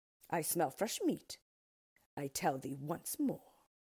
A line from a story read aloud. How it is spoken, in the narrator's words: replied the Ork, looking crossly